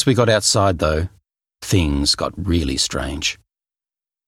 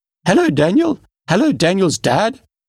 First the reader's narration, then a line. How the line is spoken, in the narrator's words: she said in a high, insistent voice